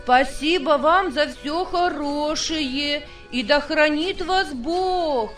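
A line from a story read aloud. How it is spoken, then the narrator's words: Shout from distance. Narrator (Russian): крикнул полко лесничихе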